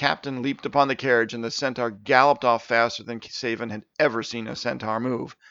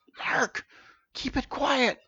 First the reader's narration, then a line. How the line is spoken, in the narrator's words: he hissed to himself